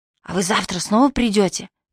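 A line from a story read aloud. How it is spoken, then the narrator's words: Child's whisper. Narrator (Russian): присоединился к общему шепоту мальчик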